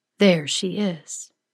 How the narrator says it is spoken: she says, her voice low and resonant

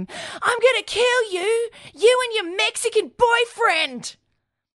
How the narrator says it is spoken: Rachel scream

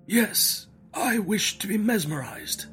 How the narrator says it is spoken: He replied feebly, yet quite audibly

